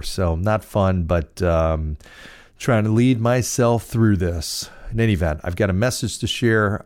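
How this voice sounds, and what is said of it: Voice a little off, not normal. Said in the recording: “as you may be able to tell, my voice is a little not quite where it is because I'm dealing with some kind of allergy thing”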